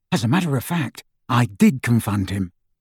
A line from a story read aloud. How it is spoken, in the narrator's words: Ron whispered to Harry